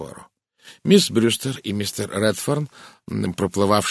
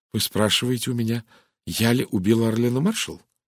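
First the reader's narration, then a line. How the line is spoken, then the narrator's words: Quiet even voice. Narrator (Russian): Тихим ровным голосом произнесла она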